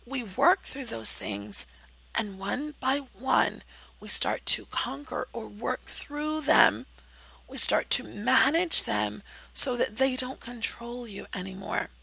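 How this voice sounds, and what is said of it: Strained, fading voice. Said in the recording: “You can hear that I'm losing my voice. I've been talking so much lately”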